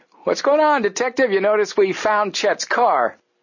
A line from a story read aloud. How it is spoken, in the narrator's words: Joe called out to him